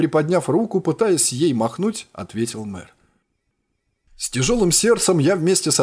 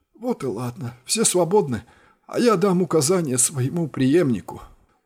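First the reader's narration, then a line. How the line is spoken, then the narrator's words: Tired reply. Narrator (Russian): устало ответил мэр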